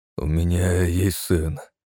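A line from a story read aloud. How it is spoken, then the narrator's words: Hoarse confession. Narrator (Russian): хрипло признался Владимир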